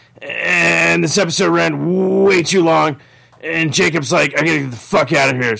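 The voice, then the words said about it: Worn-out, hoarse voice. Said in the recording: “My voice is fucking shot.”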